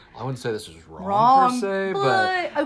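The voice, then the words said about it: Impression of a friend's voice. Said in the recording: “That's such a good Jared impression.”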